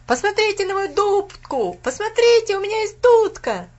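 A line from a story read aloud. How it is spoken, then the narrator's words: Loud shouting. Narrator (Russian): Громко кричал он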